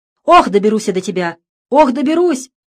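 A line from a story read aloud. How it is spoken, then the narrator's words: Mother shouting after son. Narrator (Russian): кричала вслед убегавшему сыну мать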